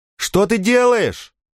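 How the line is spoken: Shouted after someone. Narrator (Russian): крикнула она ему вслед

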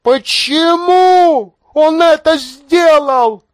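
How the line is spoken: Shouted. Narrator (Russian): закричала она

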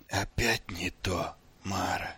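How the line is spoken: Whisper. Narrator (Russian): прошептал он

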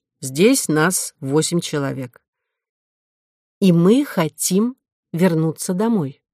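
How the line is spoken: Plain. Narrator (Russian): сказала Кора

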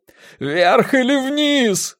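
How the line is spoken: Yelling. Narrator (Russian): завопил Грунг

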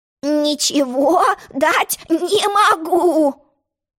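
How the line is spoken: Grumbling sheep. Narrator (Russian): проворчала овца

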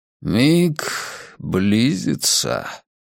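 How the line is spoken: Solemn. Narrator (Russian): торжественно произнес Сек Хардин, истинный глаз мирового древа

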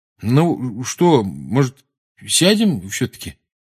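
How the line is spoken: Uncertain, worried suggestion. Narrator (Russian): неуверенно предложил Рон, глядя на Гарри с беспокойством

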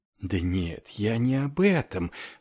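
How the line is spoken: Hurried whisper. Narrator (Russian): снова перейдя на шепот, заторопился капеллан

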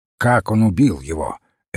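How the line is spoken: Sharp question. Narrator (Russian): резко спросил Крейг

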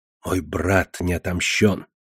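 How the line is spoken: Whispering. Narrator (Russian): прошептал

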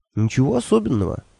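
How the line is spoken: Bewildered. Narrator (Russian): растерянно сказал я Хехальфу

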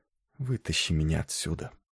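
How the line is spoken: Mumbled whisper. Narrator (Russian): пробормотал шепотом

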